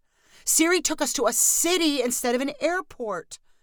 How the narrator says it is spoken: cried Amber

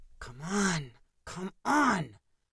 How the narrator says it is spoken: Danny said under his breath

